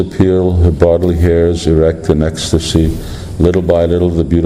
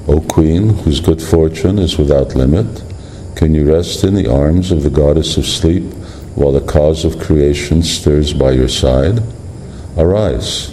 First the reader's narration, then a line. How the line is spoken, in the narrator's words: the breeze whispered